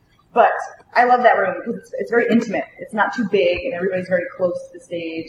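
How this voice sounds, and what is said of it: Rhode Island accent. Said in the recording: “I actually have a terrible accent ... I definitely sound like a Rhode Islander”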